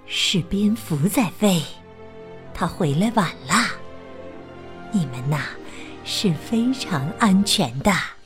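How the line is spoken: Whispering. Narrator (Chinese): 巴蒂悄声说

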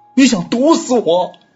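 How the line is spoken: Sudden shout. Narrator (Chinese): 突然他…大喊道

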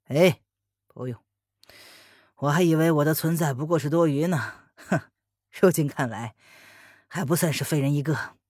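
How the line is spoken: Bitter smile, thankful. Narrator (Chinese): 黑影苦苦一笑，对文言道谢

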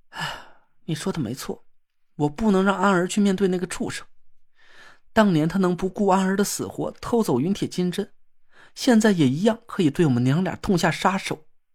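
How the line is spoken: Despairing sigh. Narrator (Chinese): 严柳绝望的叹了口气

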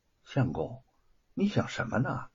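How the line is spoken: Soft question. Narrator (Chinese): 白雪燕轻声的问

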